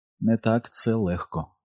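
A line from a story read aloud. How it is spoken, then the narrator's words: Quiet. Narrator (Ukrainian): промовила Беверлі, тихо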